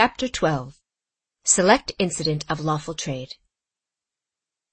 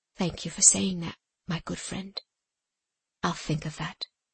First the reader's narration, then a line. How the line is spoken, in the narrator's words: said quietly